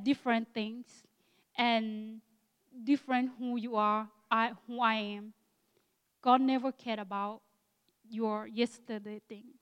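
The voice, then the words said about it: Akha Thai accent in English. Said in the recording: “my Akha Thai accent in English”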